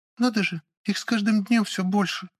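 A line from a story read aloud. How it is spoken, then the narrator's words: Sad young girl. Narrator (Russian): Печально юная Лавийка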